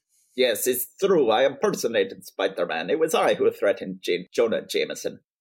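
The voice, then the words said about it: Put-on Russian accent. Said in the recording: “Should I do my Russian uh, accent here?”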